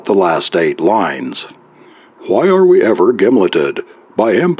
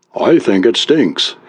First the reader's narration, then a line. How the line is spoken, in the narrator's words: he said evenly